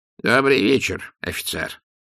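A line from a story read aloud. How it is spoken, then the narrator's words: Creaky wizard voice. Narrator (Russian): проскрипел волшебник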